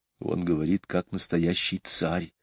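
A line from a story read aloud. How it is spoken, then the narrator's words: Whisper. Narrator (Russian): прошептала Джейн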